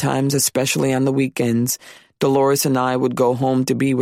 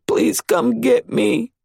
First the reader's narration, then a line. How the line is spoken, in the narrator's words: while she wailed